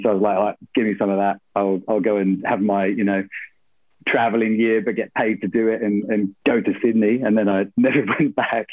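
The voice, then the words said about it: British accent. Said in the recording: “I thought you would have lost the accent by now”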